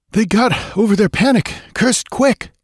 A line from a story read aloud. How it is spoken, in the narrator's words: panted Balthus, with a fresh burst of speed